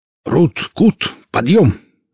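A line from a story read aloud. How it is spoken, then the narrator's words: Hearty bark. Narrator (Russian): молодецки гаркнул Велес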